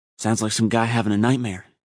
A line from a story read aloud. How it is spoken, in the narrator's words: he replied nervously